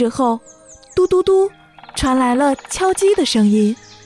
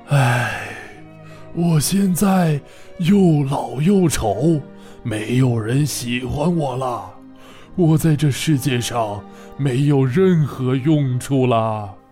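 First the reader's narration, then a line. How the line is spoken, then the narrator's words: Heavy sigh, old voice. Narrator (Chinese): 老橡树 发出了沉重的叹息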